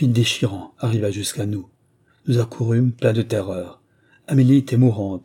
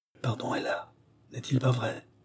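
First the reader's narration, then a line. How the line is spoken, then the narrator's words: Barely intelligible voice. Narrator (French): prononça-t-elle d'une voix à peine intelligible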